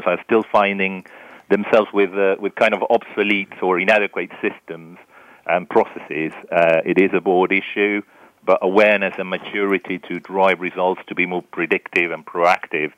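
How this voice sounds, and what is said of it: Charming foreign accent. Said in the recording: “my accent is not really from there. ... it's a very charming accent”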